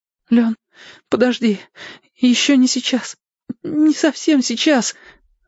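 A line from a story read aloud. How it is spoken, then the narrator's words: Breathless sobbing. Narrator (Russian): Зорко задышал со всхлипами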